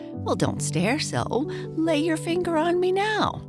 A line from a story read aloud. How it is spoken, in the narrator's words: a voice which laughed and said